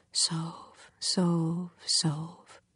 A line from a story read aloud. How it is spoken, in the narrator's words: A voice so close to me that it seems to speak through my body says softly